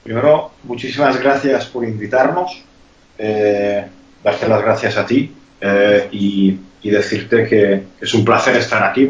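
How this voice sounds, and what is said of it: Hungarian accent in Spanish. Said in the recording (Spanish): “tengo acento, soy húngaro”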